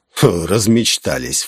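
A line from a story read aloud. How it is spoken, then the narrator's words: Scornful snort. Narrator (Russian): фыркнул он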